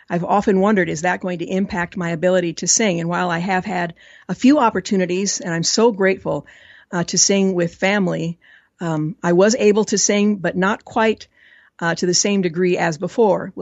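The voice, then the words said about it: Scratchy, hoarse voice. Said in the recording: “that's why my voice sounds so scratchy now. It was much worse when we started the program at four ... I was told there was a tube or tubes down my throat”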